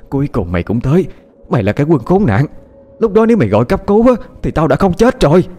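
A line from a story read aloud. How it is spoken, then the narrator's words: Frantic screaming. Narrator (Vietnamese): người phụ nữ như không thể chờ đợi thêm được nữa, gào thét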